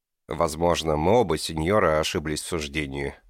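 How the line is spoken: Icy voice. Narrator (Russian): проговорил он истинно ледяным голосом

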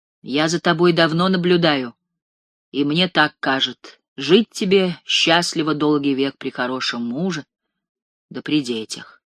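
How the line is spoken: Plain. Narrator (Russian): сказала Мария

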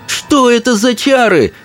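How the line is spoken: Yelling angrily. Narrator (Russian): заорала на него Чармайн

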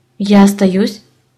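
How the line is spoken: Plain. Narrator (Russian): спросил муж

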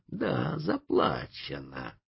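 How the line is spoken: Hissed. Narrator (Russian): прошипел индеец

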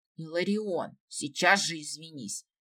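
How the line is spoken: Angry hiss. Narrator (Russian): сердито прошипел Сириэль

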